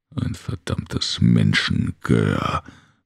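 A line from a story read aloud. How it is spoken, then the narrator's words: Grumbled. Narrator (German): brummte Brigo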